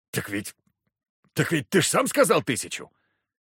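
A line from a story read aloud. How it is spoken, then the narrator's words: Laughing loudly. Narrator (Russian): Я расхохотался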